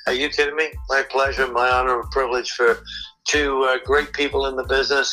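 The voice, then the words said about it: English accent. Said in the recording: “this little weird English guy with a strange accent”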